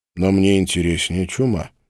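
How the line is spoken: Grim. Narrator (Russian): мрачно сказал Глеб

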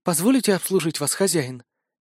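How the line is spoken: Barely audible question. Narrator (Russian): еле слышно спросила

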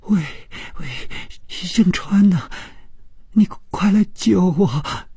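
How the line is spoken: Crying, terrified. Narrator (Chinese): 这声音充满了哭泣，并且非常的恐惧

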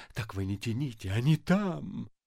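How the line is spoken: Whisper. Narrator (Russian): Ипполит Матвеевич шепнул Бендеру

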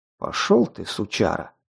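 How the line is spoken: Snapping retort. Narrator (Russian): огрызнулся

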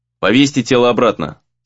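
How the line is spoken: Dry command. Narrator (Russian): сухо велел Монтару

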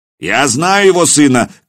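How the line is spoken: Shouted reply. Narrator (Russian): крикнули в ответ

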